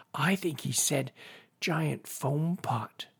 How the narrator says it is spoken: whispered Binky

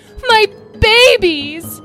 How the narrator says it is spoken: He cried

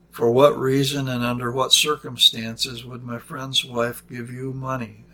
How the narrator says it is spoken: asked Mr

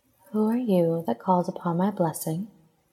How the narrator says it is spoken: she asked in a soft, lilting voice

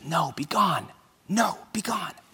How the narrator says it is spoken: whispers

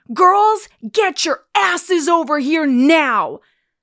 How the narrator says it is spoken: he starts yelling

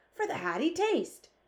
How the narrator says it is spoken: cried the BFG

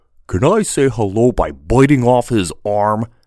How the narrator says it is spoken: Brutus growled for emphasis

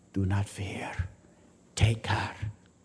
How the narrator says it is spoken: whispered in his ear

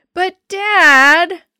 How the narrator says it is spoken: I whined

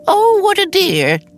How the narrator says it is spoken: Jan exclaimed

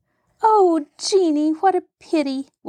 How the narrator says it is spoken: wailed Mary

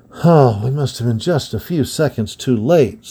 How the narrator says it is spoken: said Rodney, with a sigh

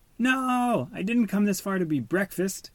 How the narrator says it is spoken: yelled Marlin

